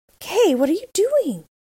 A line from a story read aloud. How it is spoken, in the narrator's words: cried the little girl